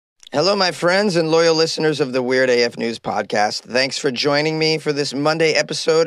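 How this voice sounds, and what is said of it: Hoarse, wrecked voice. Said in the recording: “my voice is not its usual mellifluous quality... My voice is wrecked because I partied too hard on Saturday night... my voice is still like this”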